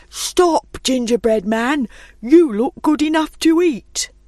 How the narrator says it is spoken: The cow called out

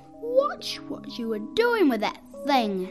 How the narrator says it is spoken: snapped fingers

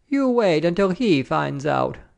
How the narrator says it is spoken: Madame cried cheerfully

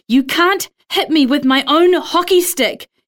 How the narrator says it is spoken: Heather screams

